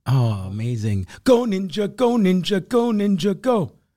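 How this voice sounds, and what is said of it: Good sung impression. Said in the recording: “That was a good impression.”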